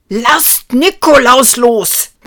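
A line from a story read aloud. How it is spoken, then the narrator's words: Roaring. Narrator (German): brüllte Ruprecht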